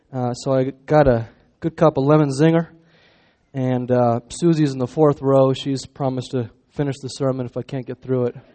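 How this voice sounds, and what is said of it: Hoarse voice from a cold. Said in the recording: “I have a little bit of a cold, starting to lose my voice a bit”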